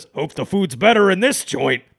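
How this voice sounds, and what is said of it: Imitates another person's voice. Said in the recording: “my Michael Keaton impression”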